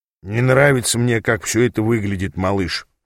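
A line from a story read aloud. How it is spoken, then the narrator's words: Grumbling. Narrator (Russian): проворчал Ааз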